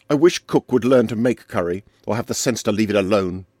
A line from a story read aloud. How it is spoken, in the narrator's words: said Arlington, suddenly and savagely